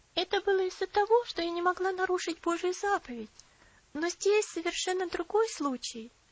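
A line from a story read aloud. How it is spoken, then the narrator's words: Soft, gentle reply. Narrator (Russian): мягко ответила Элси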